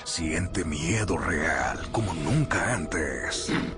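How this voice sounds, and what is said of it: Monster voice. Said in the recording (Spanish): “esa voz de monstruo”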